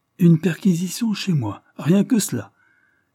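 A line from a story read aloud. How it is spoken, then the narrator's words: Ironic exclamation. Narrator (French): s'écria ironiquement Lord Dane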